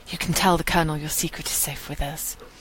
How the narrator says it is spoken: Katie leans in a little, like she's sharing a dreadful secret with him, and gives him a reassuring smile and whispers

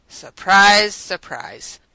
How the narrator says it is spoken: Radic said dryly in response

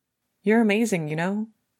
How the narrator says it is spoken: Hinata blurts

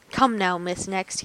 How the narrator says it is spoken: he said coldly

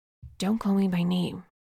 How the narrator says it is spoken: he whispers

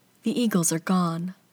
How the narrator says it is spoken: she glances at it sadly and says

